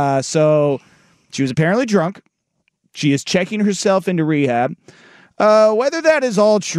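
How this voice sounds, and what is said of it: Usual voice. Nothing is said of it.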